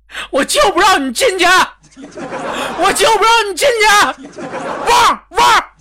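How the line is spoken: Loud yelling. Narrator (Chinese): 豆哥 高声的呐喊

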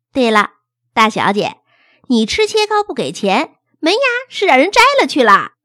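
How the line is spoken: Joking. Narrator (Chinese): 他开玩笑说

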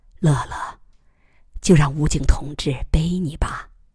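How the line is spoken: Gentle. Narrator (Chinese): 马伯伯柔声说

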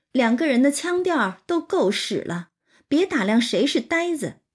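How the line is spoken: Sneering. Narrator (Chinese): 金贵就冷笑道

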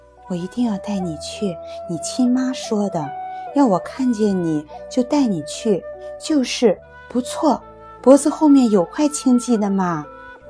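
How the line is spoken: Whispered close to ear. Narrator (Chinese): 伏在他耳旁，小声说

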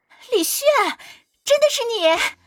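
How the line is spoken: Pleasant voice calling. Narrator (Chinese): 有个很好听的声音喊道

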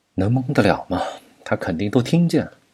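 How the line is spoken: Long sigh. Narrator (Chinese): 钱海明长叹一声

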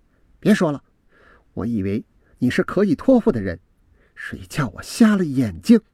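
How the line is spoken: Deep sigh. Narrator (Chinese): 我深深的叹了一口气

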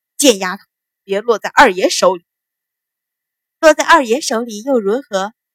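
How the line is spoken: Laughing reply. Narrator (Chinese): 白芍笑着接口

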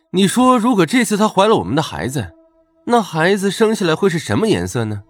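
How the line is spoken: Admiring. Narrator (Chinese): 赞叹道

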